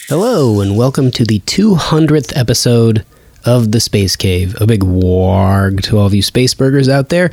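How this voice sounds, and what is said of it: Voice not sounding normal. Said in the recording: “As you can maybe tell right now, my voice isn't sounding 100% normal.”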